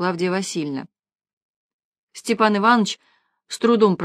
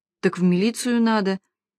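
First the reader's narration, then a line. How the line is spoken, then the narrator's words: Uncertain old man's suggestion. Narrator (Russian): неуверенно предложил старик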